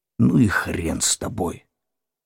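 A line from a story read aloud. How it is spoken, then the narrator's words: Exhaled. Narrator (Russian): выдохнул Игорь Васильевич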